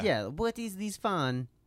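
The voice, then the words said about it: Poor attempt at French accent. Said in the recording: “That's not even close to a French accent.”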